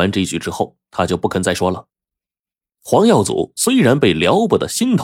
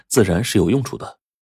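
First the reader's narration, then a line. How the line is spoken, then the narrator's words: Smiling. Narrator (Chinese): 姚天赐一笑说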